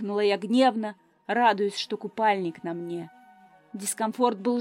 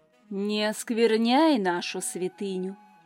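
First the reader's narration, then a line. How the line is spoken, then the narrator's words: Silky, insinuating reply. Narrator (Russian): Вкрадчиво отозвался Тай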